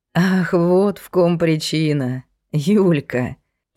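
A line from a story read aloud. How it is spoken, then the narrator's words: Interrupting sad laugh. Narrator (Russian): Перебив его, Глеб грустно рассмеялся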